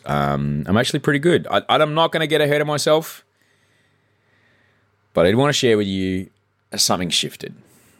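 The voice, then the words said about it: Worn-out, strained voice. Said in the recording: “my voice is toast”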